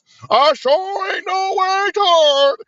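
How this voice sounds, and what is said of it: Mocking imitation of a put-on dialect. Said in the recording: “put on her black voice.”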